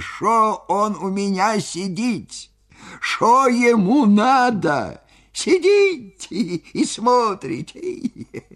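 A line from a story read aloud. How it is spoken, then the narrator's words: Laughing, bass then squeaky. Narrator (Russian): он хохотал, хохотал до слез, то басом, то тонким писклявым голосом, и спрашивал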